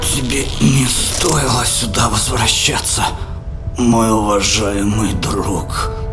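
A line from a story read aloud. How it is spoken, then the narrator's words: Hoarse rasp. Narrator (Russian): Более прохрипел, нежели сказал синий маг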